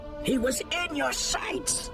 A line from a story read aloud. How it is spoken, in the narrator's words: Keetar yelled